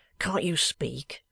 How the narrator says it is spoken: said the boy sharply

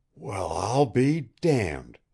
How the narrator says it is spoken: he gasped

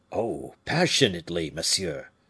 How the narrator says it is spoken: repeated the falconer, with an accent of bitter regret, and a sigh that was the funeral oration of Fouquet

